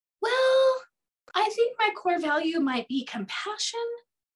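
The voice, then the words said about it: High-pitched, questioning tone. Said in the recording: “You see the questioning, the high voice.”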